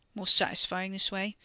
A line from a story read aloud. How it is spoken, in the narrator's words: Wes mumbled against his torn sleeve